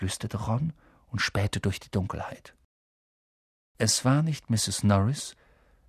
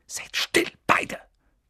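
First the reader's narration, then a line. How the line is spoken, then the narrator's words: Hiss. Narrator (German): zischte Harry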